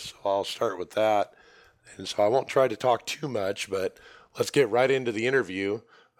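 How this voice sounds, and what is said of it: Hoarse, weak voice from laryngitis. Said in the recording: “my voice is gone. Wow, I have a laryngitis”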